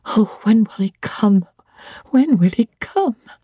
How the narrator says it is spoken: cried inwardly

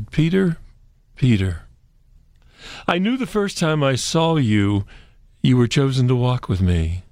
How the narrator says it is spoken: Jesus sighed deeply and said

